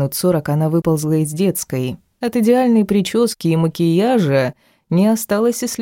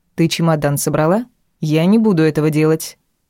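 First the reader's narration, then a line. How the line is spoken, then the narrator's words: Stern. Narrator (Russian): прибежавшей дочери строго сказала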